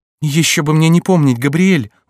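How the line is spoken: Exclaimed. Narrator (Russian): воскликнула Диана

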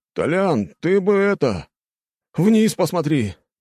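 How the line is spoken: Sighing. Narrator (Russian): вздохнул один из его сослуживцев

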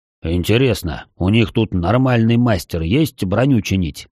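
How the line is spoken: Deep bass voice. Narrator (Russian): пробасил Пламень

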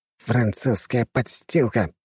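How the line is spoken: Hissed. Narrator (Russian): прошипел

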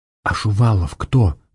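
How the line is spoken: Whisper. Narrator (Russian): прошептала Варя

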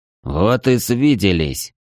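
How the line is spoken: Sullen mutter. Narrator (Russian): угрюмо буркнул свой

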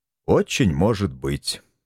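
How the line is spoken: Sad agreement. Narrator (Russian): грустно согласился я

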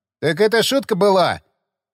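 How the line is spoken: Snorting grunt. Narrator (Russian): Хмыкнул лымарь

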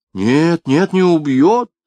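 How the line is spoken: Laughing objection. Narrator (Russian): возразила индианка, невольно рассмеявшись

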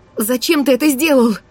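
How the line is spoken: Exclamation. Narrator (Russian): Воскликнула я

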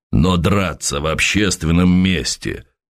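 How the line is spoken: Rumbling parade-ground bass. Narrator (Russian): строевым басом пророкотал майор

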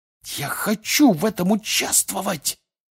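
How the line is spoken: Loud carrying hiss. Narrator (Russian): прошипел на весь стол Фред Уизли

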